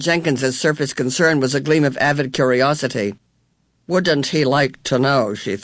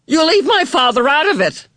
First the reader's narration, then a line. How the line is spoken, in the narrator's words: Meg shouted